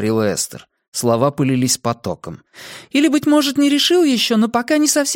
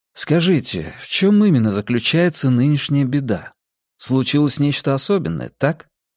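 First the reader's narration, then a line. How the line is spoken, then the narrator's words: Gentle. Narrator (Russian): мягко предложил собеседнице Калгари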